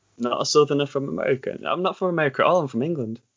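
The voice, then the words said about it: English regional accent. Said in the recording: “So that's that's our accent. That's what we we speak like.”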